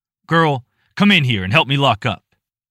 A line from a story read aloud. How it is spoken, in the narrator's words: barked